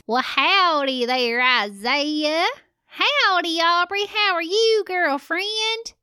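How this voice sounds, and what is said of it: Put-on cowboy voice. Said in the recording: “your cowboy voice”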